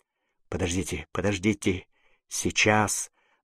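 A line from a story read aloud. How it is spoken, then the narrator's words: Muttering. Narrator (Russian): бормотал Фабель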